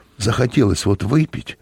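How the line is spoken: Slightly hoarse. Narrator (Russian): проговорил он хрипловато

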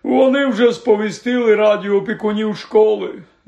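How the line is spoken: Unhappy sigh. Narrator (Ukrainian): зітхнув нещасний Гегрід

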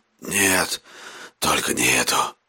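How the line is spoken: Hoarse rasp. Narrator (Russian): прохрипел он

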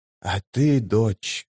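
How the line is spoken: Quiet feverish voice. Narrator (Russian): спросила Мхиби тихим лихорадочным голосом

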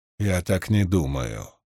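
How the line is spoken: Quiet. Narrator (Russian): тихо промолвила Певара

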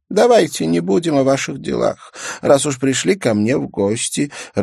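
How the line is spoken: Laughing. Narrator (Russian): рассмеялась Олаук Сивертсон

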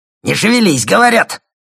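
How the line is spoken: Roared. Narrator (Russian): взревел сторож

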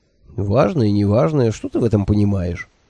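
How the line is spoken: Grumble. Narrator (Russian): проворчал он

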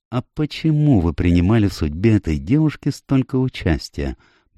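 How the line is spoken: Gentle inquiry. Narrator (Russian): мягко поинтересовался Пуаро

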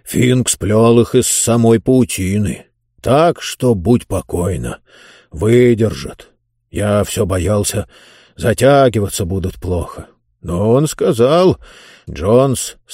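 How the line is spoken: Plain. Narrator (Russian): сказал он

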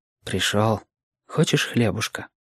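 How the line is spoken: Low voice. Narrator (Russian): вполголоса говорил

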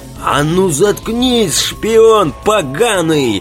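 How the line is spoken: Shrieked. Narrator (Russian): Взвизгнул офицер Костерян

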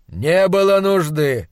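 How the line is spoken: Calm objection. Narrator (Russian): спокойно возразил мой хозяин

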